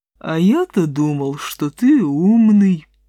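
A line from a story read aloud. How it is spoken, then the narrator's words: Lazy lowing buffalo. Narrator (Russian): лениво промычал буйвол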